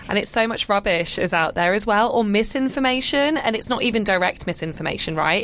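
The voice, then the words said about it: British London accent. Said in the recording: “you're here from London ... as the accent tells”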